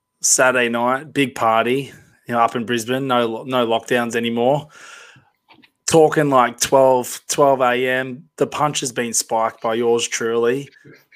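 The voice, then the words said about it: Hoarse, nearly lost voice. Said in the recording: “My voice, as you can hear ... Did my voice, so I've lost it.”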